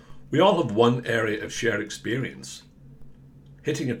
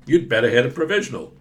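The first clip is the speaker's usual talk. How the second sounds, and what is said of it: Weak put-on American accent. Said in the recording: “I don't know why I made that voice American. I don't do a good American voice”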